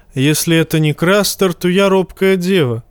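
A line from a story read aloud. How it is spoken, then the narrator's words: Snorting. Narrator (Russian): хмыкнул Тормунд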